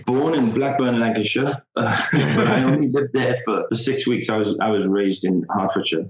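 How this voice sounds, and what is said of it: Non-American accent. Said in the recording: “I can tell by your accent you're not American”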